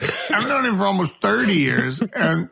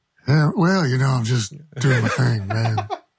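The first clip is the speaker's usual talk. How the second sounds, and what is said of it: Mimicked laid-back radio announcer voice. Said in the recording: “sounded like Jim Jeffries doing an American accent or something ... he's doing his on air voice. This is his radio voice ... it's perfect”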